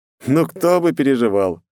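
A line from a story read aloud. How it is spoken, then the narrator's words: Skeptical snort. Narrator (Russian): хмыкнул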